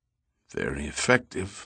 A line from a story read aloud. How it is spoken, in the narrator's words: mumbled the captain